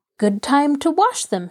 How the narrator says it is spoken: she exclaimed

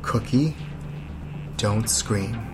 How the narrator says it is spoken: Dave looks directly at her and says very calmly

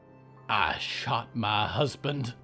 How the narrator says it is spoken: Zelda spat

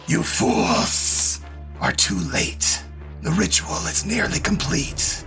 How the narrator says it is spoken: The cultists all hiss and say

